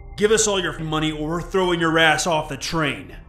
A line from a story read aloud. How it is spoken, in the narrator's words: One of them then yelled at me